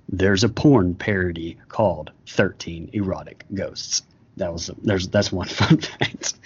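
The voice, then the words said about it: Announcer-style radio voice. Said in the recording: “I'm going to read them in radio voice”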